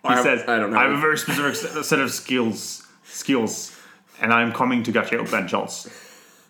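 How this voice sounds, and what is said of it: Imitates another person's voice. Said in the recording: “the voice of Liam Neeson ... Was that you fixing your Liam Neeson accent? ... I kind of adjusted it halfway through.”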